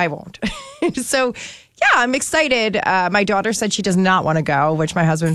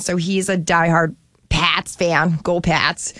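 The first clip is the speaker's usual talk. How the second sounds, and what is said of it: Put-on Boston accent. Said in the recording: “So that's my Boston accent. Isn't it good? ... That was the best Boston accent I've ever heard.”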